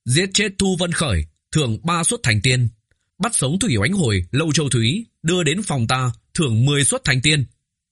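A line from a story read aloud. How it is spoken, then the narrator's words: Sudden raised voice. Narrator (Vietnamese): Đột nhiên Tô Vân cất cao giọng, nói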